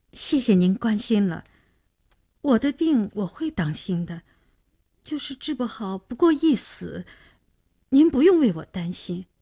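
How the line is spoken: Agitated, trembling voice. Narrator (Chinese): 女孩的脸上显出几分激动，声音也有些发抖

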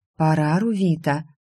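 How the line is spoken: Priestess whispering from behind. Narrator (Russian): прошептала за моей спиной жрица

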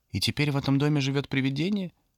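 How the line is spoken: Timid little girl. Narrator (Russian): робко спросила одна из самых маленьких девочек

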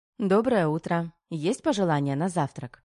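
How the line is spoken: Cheerful question. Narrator (Russian): весело уточнила Тома

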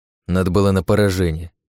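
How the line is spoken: Angrily spat out. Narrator (Russian): зло выплюнул Рейн

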